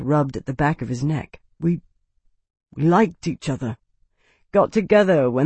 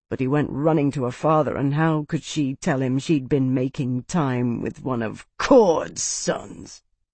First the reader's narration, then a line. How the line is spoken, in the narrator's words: He spat the words with disgust